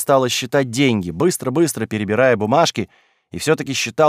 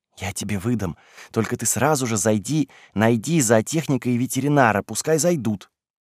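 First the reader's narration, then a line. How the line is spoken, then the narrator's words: Whisper. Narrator (Russian): Полина прошептала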